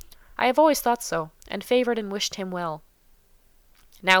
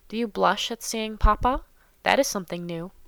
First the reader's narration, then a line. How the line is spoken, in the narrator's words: said Monsieur de Bassompierre in a low voice, with a grave smile